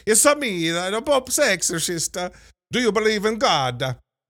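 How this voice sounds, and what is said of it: Exaggerated Italian accent imitating Russell Crowe. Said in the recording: “Russell Crowe... doing a Father Guido Sarducci level, slightly adjacent from Zeus sort of accent work here... this accent... I'm not even doing it justice, but it was bad, right? It's a bad accent.”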